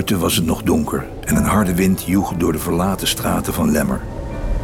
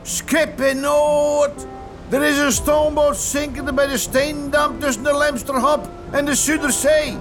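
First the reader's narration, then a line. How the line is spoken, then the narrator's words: Called out. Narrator (Dutch): Hij riep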